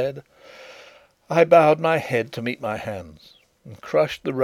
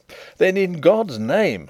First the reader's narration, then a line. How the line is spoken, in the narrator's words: cried